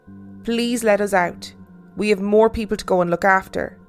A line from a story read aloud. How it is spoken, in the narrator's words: I just said as calmly as I could